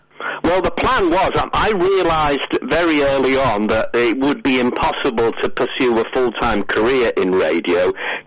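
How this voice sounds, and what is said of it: Slight Scouse accent. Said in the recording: “somebody with a slightly Scouse accent”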